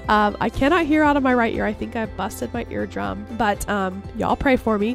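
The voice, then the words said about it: Sick, awful-sounding voice. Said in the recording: “I'm super sick and that's why my voice sounds so awful”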